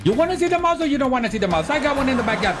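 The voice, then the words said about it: Put-on Punjabi accent. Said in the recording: “like Punjabi or something? ... Oh, he's good at that one. ... With that accent. ... Do the accent.”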